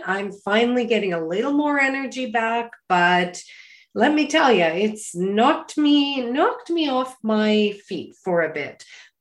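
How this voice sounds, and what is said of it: Voice slightly off, unwell. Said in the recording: “my voice is a little off today”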